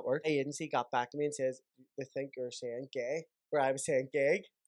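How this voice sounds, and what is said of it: A regional accent. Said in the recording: “I think it's just our accent.”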